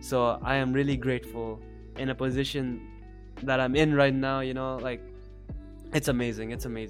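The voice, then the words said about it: Emotional, choked-up voice. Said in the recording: “without getting emotional ... I'm really getting emotional.”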